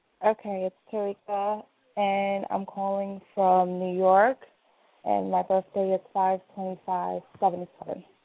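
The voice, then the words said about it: Muffled voice. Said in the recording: “she sounds muffled ... You sound a little muffled.”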